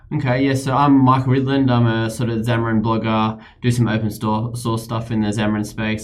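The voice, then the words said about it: Australian accent. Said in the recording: “Australia... I couldn't tell by the accent.”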